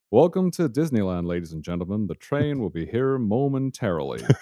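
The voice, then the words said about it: Put-on American announcer accent. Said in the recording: “the only American accent that I have in my head is the old Disneyland one ... That's not bad.”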